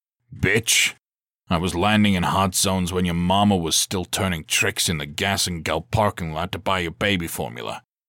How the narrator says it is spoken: he growled

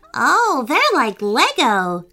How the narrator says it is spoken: cried Griffin happily

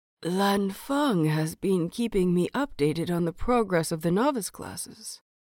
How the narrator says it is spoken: Lan Guihong says, his voice still hoarse from days of coughing

